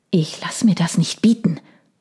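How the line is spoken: Hissed. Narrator (German): zischte er

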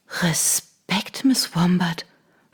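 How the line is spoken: Whispered. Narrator (German): flüsterte sie

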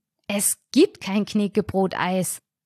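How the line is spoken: Hissed. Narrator (German): zischte ich

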